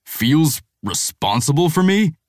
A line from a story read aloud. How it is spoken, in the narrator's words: Mason sputters